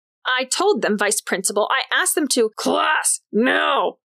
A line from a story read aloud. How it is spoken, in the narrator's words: McGuckin's screams rattled the lights in their fixtures